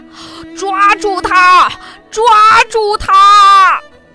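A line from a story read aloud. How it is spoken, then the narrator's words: Desperate shouting. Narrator (Chinese): 王爷没命地喊着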